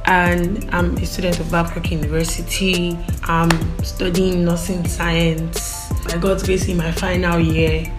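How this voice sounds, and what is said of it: Nigerian Igbo accent. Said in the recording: “I'm Igbo, by the way, I'm Igbo. I don't know if you tell from my diction or accent”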